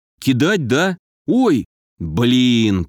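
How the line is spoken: Drawled. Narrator (Russian): протянул я

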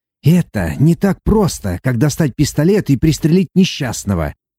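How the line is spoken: Impatient growl. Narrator (Russian): Теряя терпение, прорычал доктор

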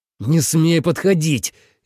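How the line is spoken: Near growl. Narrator (Russian): едва ли не зарычал Ленард

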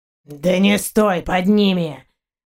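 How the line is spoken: Hoarse shout. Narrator (Russian): хрипло крикнул Заури

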